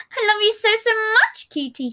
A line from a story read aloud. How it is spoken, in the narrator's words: exclaimed